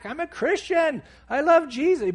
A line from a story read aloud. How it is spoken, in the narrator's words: I'm yelling back